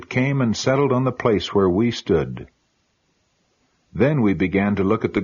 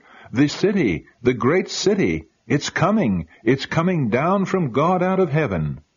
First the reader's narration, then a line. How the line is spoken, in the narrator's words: We all cried out